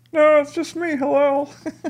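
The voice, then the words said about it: Imitates another person's voice. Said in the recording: “that terrible impersonation ... Sounds nothing like what Hillel actually sounds like.”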